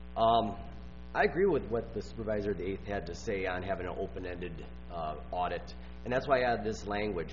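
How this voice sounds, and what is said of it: Voice sounds ill, strained. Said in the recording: “Sorry for my voice. I'm a little under the weather”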